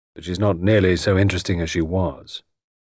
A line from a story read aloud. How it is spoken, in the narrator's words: he said gloomily